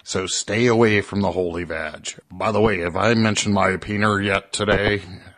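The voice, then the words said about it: Imitates another person's voice. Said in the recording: “my impersonation of Sam ... That is horrible”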